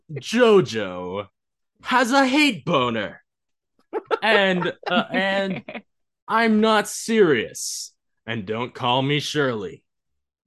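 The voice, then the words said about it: Announcer voice. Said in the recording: “in my announcer voice.”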